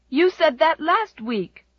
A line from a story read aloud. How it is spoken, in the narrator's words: cried Jem indignantly